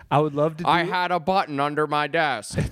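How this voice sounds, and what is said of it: Cartoon character impression. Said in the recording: “my Squidward impression”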